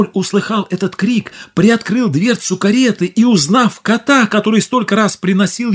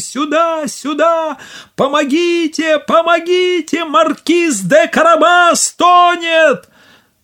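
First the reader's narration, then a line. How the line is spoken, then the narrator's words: Shouting at full strength. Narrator (Russian): закричал, что было мочи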